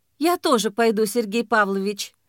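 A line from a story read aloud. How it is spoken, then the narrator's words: Soft female voice. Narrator (Russian): мягко сказала женщина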